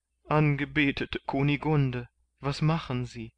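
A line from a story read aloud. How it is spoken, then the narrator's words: Sobbing question. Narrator (German): fragte Kandid schluchzend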